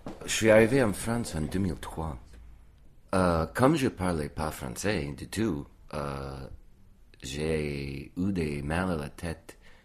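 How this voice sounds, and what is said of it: Slight southern French accent. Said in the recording (French): “a donc un petit accent du sud quand il parle français”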